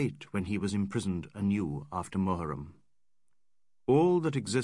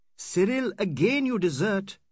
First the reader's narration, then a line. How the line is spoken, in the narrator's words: cried Aziz